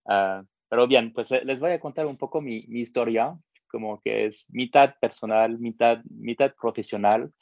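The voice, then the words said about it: French accent in Spanish. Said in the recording (Spanish): “mi acento francés no, sea tan pronunciado”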